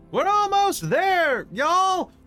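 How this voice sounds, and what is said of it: Character voice with put-on accent. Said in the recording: “accent changes every episode”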